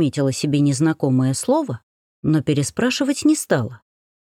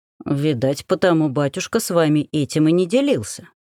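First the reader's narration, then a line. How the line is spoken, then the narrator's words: Plain. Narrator (Russian): сказал купец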